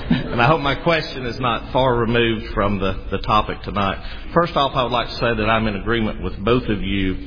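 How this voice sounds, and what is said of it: North Alabama Southern US accent. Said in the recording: “I hope my accent is not as far removed, being from North Alabama, from the British accent.”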